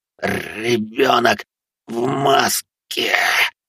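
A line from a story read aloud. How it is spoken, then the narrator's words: Delirious dying wheeze. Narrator (Russian): В бреду прохрипел последние слова этот урод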